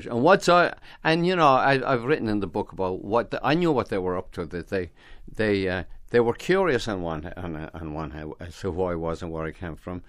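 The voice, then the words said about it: Irish accent. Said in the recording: “what saved me was my accent. You teach, you Scotch or something. And then, no, I'm Irish.”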